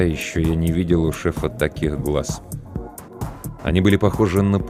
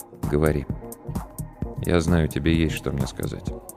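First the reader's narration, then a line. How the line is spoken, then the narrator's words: Quiet, weighty. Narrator (Russian): Игорь Олегович тихо, но очень весомо сказал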